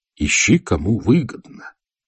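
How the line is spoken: Very solemn. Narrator (Russian): начал я весьма торжественно

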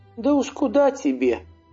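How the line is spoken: Sighed by mother. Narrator (Russian): вздохнула мать

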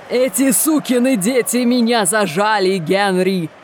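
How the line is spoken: Yell barely audible. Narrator (Russian): заорал он, едва слышным сквозь пение голосом

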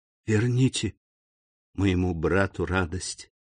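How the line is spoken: Whisper in ear. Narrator (Russian): шепнула Жюли на ухо графу

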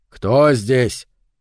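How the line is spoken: Shouted. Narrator (Russian): крикнул Сильвера

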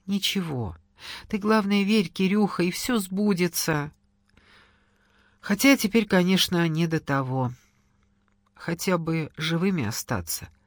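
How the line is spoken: Sad. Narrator (Russian): печально сказала Кира

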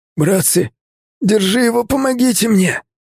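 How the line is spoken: Wheezing, struggling young man. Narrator (Russian): Захрипел парень, пытаясь вырваться

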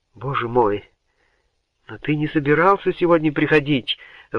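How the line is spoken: Breathed out. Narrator (Russian): выдохнула Генриетта

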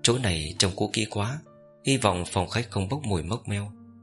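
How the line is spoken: Frowning whisper. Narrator (Vietnamese): Cố Sơ Đồng kệ cau mày thì thầm

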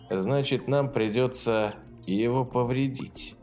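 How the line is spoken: Grim. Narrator (Russian): И Ю мрачно продолжил

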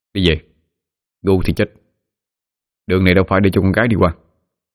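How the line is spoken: Cold voice. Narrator (Vietnamese): Sói lạnh lùng

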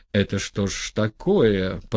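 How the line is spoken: Muttering. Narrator (Russian): пробормотал один буфетник

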